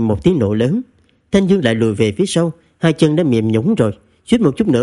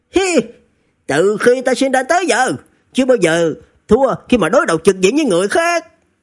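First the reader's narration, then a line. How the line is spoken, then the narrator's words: Shouting through gritted teeth. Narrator (Vietnamese): Thanh Dương nghiến răng hét lớn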